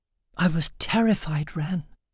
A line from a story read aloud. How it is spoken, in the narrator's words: whispered into his chest